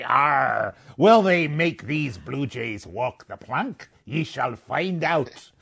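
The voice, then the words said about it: Pirate character voice. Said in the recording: “do my piratical voice”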